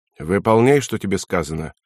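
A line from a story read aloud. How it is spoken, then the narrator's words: Plain. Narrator (Russian): ответил Никольский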